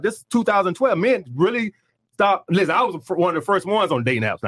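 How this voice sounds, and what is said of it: Southern US accent. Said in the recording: “she could tell my accent. She's like, you must be from the South.”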